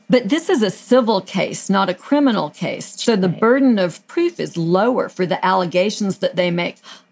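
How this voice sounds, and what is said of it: Southern American accent. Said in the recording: “It's my southern accent.”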